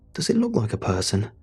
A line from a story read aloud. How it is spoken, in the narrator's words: William said, his tone close to exasperation